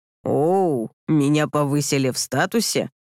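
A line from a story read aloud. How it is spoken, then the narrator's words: Snort. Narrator (Russian): хмыкнул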